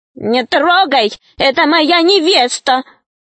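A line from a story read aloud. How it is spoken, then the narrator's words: Shouted. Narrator (Russian): закричал Веня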